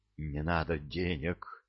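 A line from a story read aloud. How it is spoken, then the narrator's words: Passionate whisper. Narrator (Russian): зашептала она страстно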